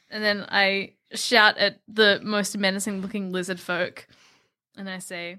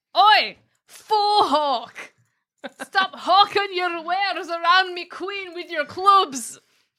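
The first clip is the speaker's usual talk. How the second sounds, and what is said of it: Put-on, hard-to-understand accent. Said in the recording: “you just couldn't understand my accent.”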